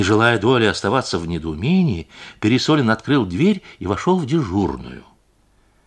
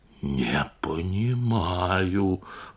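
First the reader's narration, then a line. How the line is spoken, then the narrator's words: Whisper. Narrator (Russian): прошептал Пересолин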